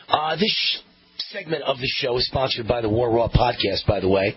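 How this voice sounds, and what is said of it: Raw, worn-out hoarse voice. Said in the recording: “lose my voice a little bit ... So my voice gets a full workout all day ... So a little bit raw today ... my voice is shot today”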